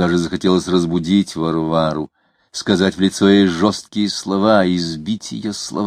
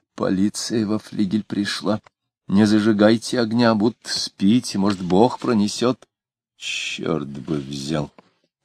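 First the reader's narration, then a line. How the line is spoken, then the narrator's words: Muttered. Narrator (Russian): пробормотал Самгин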